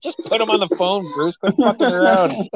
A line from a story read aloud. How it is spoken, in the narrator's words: Amy laughing really hard, and she's like